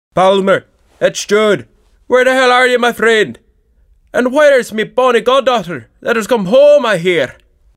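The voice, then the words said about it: Thick Scottish accent, male character voice. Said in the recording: “a man's voice with a thick Scottish accent”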